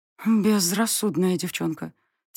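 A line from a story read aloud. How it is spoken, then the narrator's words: Quiet. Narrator (Russian): тихо проговорила она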